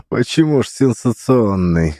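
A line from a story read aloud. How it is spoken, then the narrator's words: Laughing. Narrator (Russian): засмеялся Андрей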